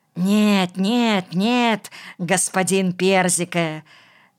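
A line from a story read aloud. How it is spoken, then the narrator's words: Rat wheezing soothingly. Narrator (Russian): засипела крыса, стараясь его успокоить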